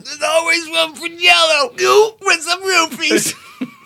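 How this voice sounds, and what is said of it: Imitates another person's voice. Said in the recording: “Worst Bill Cosby impression ... ever ... best Bill Cosby impersonation ever”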